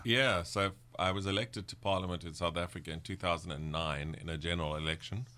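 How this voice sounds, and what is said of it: Slight South African accent. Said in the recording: “you still have some of the South African accent”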